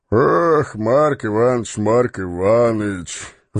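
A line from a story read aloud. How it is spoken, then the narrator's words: Sighing. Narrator (Russian): вздохнул Становой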